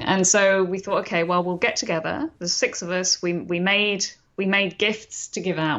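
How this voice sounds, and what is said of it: London English accent. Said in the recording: “London, which is where I'm from originally, as you can tell from my accent”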